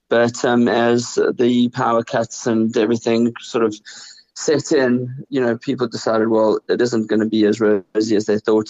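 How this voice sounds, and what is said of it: South African accent. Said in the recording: “People can hear from your accent that you are South African”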